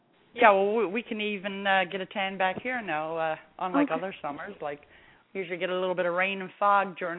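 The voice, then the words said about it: Newfoundland accent. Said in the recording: “I'm from St. John's, Newfoundland. ... I don't have that southern draw. I just got the Newfie accent.”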